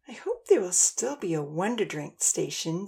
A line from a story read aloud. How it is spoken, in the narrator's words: Dia moaned, rolling over in bed